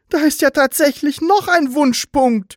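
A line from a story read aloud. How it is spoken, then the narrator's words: Surprised call. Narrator (German): rief überrascht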